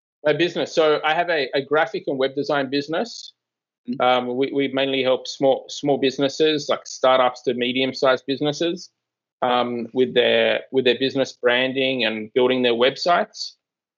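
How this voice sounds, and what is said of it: Australian accent. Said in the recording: “we gather from your accent that if nobody picked it up, you are from Australia.”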